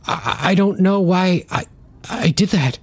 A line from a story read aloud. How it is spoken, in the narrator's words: stammered Gordon through the labored breaths